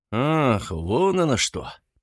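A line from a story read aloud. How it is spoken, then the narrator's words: Disconcerted mumble. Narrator (Russian): пробормотал обескураженный Максим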